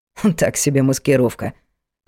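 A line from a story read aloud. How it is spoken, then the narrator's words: Major's snort. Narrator (Russian): хмыкнул майор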